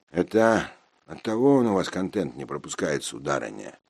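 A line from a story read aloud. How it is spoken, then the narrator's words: Grumbled. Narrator (Russian): проворчал я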